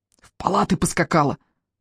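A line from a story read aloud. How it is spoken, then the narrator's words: Hissing. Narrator (Russian): шипел Миллер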